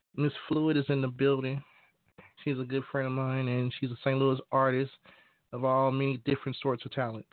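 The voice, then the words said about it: Rough, unwell-sounding voice. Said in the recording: “excuse my voice for a little bit. Been a little bit under the weather”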